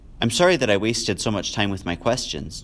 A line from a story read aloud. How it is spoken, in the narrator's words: Jonas said